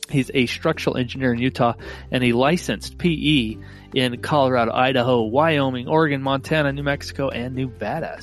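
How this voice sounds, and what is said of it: Slightly nasal voice. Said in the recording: “my voice is probably a little nasally. That's because I am fighting a cold”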